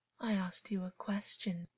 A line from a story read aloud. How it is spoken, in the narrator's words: August whispered